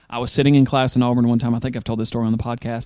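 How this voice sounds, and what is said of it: Thick Southern drawl. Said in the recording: “I do realize that I have a thick Southern accent. My drawl is very thick.”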